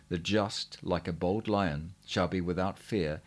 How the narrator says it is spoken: in a clear voice answered

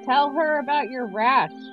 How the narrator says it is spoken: I said loudly

